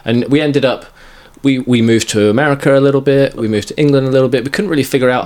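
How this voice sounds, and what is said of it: British accent. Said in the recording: “British accent, British accent.”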